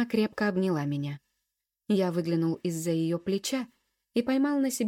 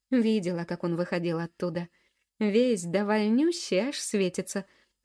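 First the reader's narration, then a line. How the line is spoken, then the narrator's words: Short laugh. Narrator (Russian): хохотнула Поля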